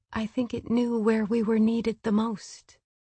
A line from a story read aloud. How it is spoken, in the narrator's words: Gwyn said quietly